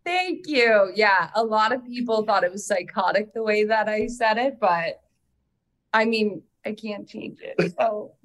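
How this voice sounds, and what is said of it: Canadian Midwest accent. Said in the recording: “it's Canadian ... It is a very Canadian, like Midwest thing”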